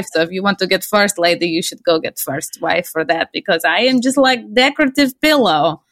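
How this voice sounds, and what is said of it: Put-on Russian woman's accent. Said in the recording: “could you do the Melania impersonation? ... it's just my Russian ... multifunctional standard issue Russian lady accent”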